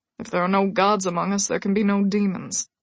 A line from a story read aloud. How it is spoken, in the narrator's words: Michael said, his voice leached of all emotion